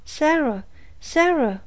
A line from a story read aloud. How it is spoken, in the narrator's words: cried Frances in terror